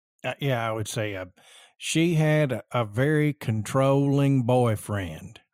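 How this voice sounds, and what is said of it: Southern American accent. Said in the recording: “how would you say that in your Southern accent?”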